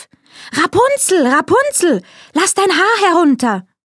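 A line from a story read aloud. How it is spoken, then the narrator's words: Sorceress calling out. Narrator (German): die Zauberin … rief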